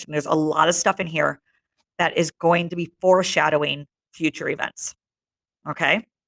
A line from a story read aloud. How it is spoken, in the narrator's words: Robert snarled at him